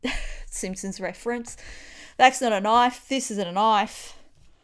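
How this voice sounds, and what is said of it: Australian accent. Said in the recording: “it's the Australian accent ... It's my Australian accent.”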